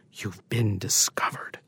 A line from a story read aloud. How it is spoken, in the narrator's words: Pietro whispers to Paolo